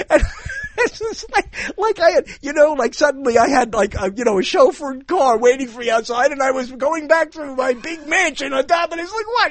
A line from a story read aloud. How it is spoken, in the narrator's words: He cried